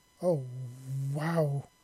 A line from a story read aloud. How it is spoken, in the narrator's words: He exclaimed